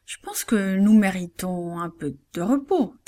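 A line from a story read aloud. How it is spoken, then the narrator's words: Plain. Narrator (French): dit-il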